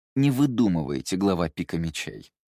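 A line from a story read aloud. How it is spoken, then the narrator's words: Cold. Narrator (Russian): холодно ответил Мушу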